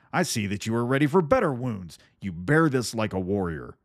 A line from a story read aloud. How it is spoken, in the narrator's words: cried Thorstein